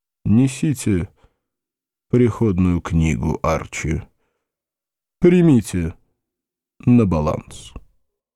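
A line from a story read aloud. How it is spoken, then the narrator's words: Heavy sigh, decisive ruling. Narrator (Russian): тяжело вздохнул и постановил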